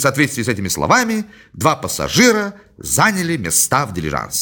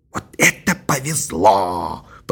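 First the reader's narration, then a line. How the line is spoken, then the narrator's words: Old man's whisper. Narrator (Russian): прошептал старик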